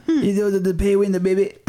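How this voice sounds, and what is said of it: Imitates another person's voice. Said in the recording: “Just doing Dusty Roads out of nowhere ... You did an impression.”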